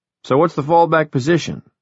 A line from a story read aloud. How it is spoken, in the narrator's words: Wireman asked